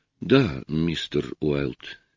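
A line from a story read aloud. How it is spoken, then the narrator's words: Soft. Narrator (Russian): мягко произнес он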